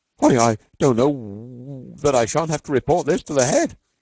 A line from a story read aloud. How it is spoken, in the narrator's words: he stammered